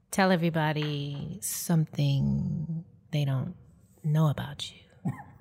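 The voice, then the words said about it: Impression of host, mysterious tone. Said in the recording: “I'm going to do your voice ... So I can do voices really well ... It's real mysterious, like.”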